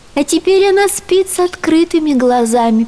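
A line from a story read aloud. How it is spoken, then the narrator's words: Sad. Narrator (Russian): печально добавила Дагни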